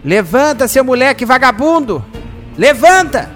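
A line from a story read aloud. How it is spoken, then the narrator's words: Angry huffing shout. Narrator (Portuguese): o senhor Jacó, que já estava muito irritado com Júlio, entra bufando no quarto do garoto e grita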